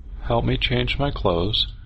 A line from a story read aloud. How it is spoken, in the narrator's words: she said calmly